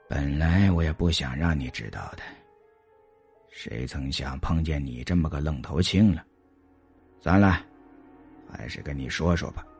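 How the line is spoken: Sighing, slow and unhurried. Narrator (Chinese): 李博叹了口气，这才悠悠的说道

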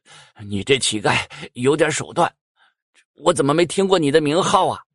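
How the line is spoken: Panting big man. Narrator (Chinese): 那大汉气喘吁吁

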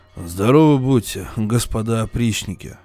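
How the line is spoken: Dull, hollow voice. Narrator (Russian): произносит граф своим глухим голосом

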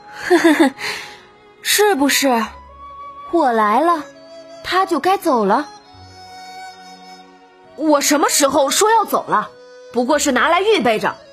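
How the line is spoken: Laughing. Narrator (Chinese): 黛玉笑了

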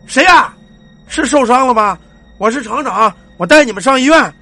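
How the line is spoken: Shouting. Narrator (Chinese): 老王就喊

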